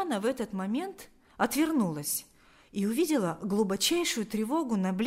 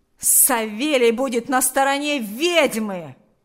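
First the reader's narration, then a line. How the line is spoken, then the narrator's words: Angry yell. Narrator (Russian): Злобно завопил Ахрим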